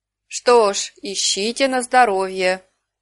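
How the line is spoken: Calm reply, raven. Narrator (Russian): спокойно ответил ворон

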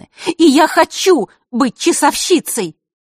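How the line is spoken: Impulsive shout. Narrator (Russian): Василиса выкрикнула, не задумываясь

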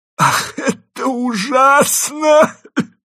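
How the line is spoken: Tearless sobbing. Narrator (Russian): бесслезно зарыдал

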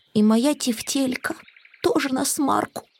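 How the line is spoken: Sad. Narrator (Russian): Грустно сказал Финдус

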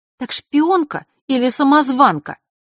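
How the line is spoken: Angry question. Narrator (Russian): зло уточнила Василиса

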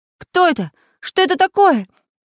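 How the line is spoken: Sleepy confused shouting. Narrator (Russian): с просонок кричал Самоделкин

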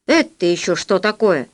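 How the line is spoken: Stern question. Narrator (Russian): строго спросил Полосков

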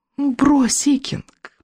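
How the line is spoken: Cooing. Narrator (Russian): проворковала колдунья

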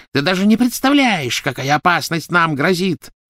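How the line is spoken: Shrill shriek. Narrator (Russian): завизжала Беллатриса

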